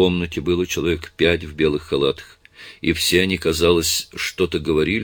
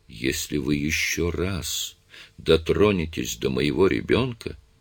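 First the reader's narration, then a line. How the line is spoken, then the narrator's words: Calm voice. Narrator (Russian): спокойным голосом сказала Дженнифер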